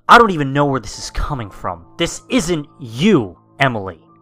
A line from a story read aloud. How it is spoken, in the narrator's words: I, inhaling and exhaling angrily, stated